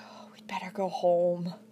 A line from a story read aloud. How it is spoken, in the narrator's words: she exhaustedly murmured to Lucy